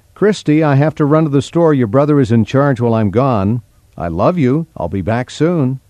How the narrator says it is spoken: her mother called out

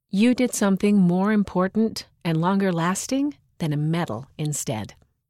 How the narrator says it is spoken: Mom said

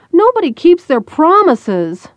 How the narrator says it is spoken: Zoe blurted out

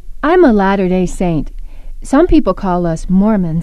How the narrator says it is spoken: I said excitedly

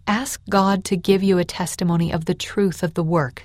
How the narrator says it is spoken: Samuel said

